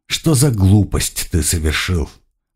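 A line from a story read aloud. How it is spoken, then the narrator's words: Sighing. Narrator (Russian): вздохнул Блюм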